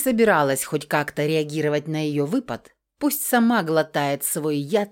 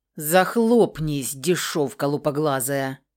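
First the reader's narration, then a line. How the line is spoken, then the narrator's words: Growling. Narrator (Russian): рыкнул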